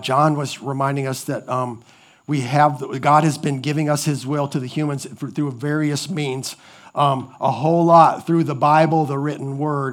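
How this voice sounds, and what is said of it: Strained voice, sounds young. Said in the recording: “I know my voice is sounding, I know that sounds terrible. I feel like I'm 12, 13 years old”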